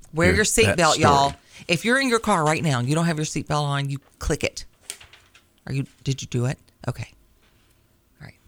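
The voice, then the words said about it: Stern motherly scolding voice. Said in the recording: “That was my mom voice.”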